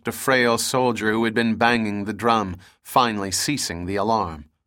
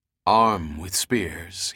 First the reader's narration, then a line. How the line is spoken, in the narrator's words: ordered calmly